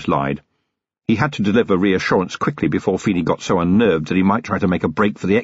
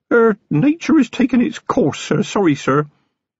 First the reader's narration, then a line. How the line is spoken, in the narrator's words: Feeney said in a damp little voice